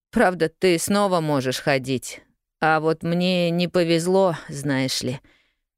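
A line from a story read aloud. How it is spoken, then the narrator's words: Sighing sad boy. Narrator (Russian): вздохнул мальчик, и взгляд его сделался еще печальнее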